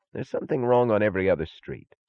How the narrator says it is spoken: said Taggart irritably

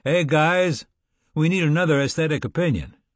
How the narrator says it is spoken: the Basco called out to us

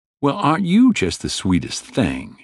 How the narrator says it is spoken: she said in a mocking southern accent

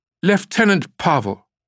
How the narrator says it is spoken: a woman's authoritative voice shouted

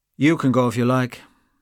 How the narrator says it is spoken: said Gabriel coldly

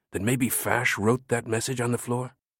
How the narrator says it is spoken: he whispered

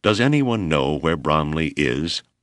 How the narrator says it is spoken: Hale asked stiffly

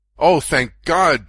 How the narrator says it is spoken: George cried

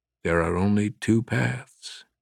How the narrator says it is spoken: the wind whispered in the trees

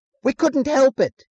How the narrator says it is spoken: he cried suddenly

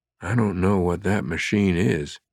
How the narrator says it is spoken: he whispered

